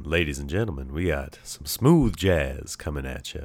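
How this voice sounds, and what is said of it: Smooth radio announcer voice. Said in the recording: “I kind of feel like I got a little bit more of a radio voice right now. I feel like I'm getting up on the microphone.”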